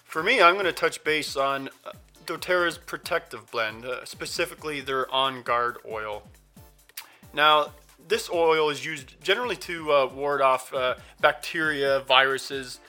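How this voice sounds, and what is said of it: Voice sounds ill. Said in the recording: “You may even hear it in my voice. I've been under the weather for about a week now”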